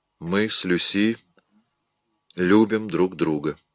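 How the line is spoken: Even voice. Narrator (Russian): ровным голосом ответил он

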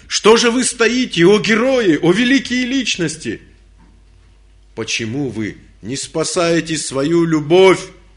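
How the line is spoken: Shouted. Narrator (Russian): он закричал

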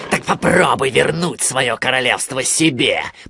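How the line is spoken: Growled. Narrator (Russian): прорычал он

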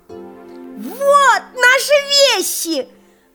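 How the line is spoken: Boy's sudden joyful shout. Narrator (Russian): вдруг радостно закричал мальчик

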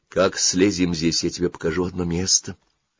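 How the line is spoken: Plain. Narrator (Russian): сказала она ему

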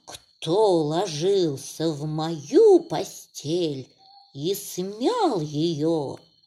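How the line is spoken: Mild growl. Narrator (Russian): зарычала Настасья Петровна, но не так страшно

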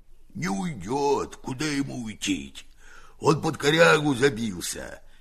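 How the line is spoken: Hoarse, muffled deep bass. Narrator (Russian): говорит Герасим охрипшим глухим басом, идущим не из гортани, а из глубины живота

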